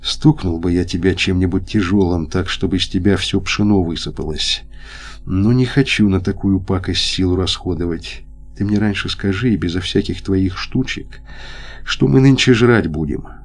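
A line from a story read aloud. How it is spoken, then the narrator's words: Quiet, uncertain, catching breath. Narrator (Russian): Лопахин, передохнув, тихо и неуверенно сказал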